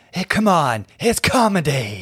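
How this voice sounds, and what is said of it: Imitates another person's voice. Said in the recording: “my Joan Rivers impression”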